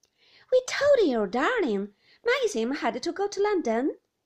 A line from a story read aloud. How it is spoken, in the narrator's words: said Beatrice impatiently